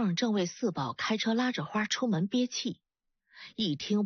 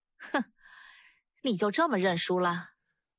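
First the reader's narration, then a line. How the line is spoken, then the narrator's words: Scornful sneer. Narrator (Chinese): 四凤冷笑了一声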